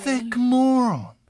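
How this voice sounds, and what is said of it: Bad put-on British accent. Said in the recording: “Your British accent is terrible.”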